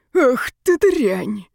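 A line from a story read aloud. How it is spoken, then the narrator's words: Breathless angry exclamation. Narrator (Russian): выдохнул он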